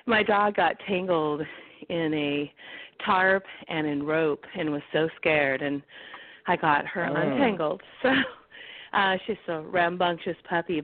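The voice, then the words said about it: Out of breath, breathless speech. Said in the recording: “out of breath ... I had to run to the phone”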